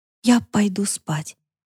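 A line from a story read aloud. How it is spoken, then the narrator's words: Strained, forced out. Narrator (Russian): почти не слыша собственного голоса из-за внезапно начавшегося шума в ушах, выдавила Яна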